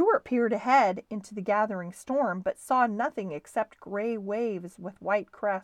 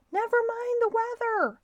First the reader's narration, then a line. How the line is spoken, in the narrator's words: cried the owner